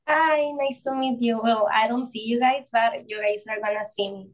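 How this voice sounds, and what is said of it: Speaks English with a Mexican accent. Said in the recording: “Your accent is so beautiful.”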